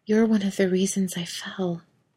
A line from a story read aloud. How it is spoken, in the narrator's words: Anna gave her an absolutely heartbroken look, whisper out a broken